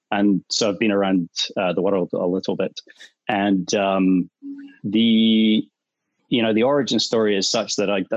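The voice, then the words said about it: Scottish accent. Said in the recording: “so I'm from Scotland, as you can tell by the accent ... also because the accent will come and go”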